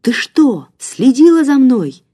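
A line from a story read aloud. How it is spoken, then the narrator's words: Angry shouting. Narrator (Russian): гневно кричал он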